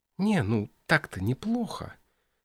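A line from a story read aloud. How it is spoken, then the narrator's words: Rustling whispers. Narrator (Russian): шелестели в тишине шепотки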